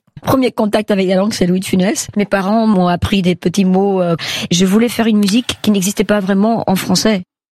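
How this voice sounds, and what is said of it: Belgian Dutch-speaker's French accent. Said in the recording (French): “c'est un accent que je devrais très bien connaître ... Chanteuse belge ... Néerlandophone”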